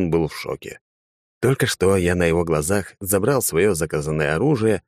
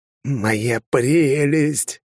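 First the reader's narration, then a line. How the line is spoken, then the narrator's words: Creaky Gollum voice. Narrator (Russian): проскрипел я голосом голума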